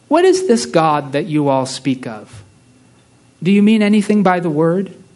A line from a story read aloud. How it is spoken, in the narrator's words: the voice of human reason, speaking calmly and kindly, and it said